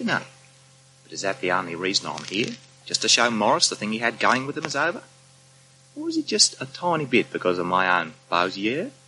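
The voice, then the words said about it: Australian accent speaking French. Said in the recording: “speak French with an Australian accent”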